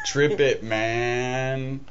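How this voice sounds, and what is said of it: Cheech impression, stoner voice. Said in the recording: “That was your Cheech impression.”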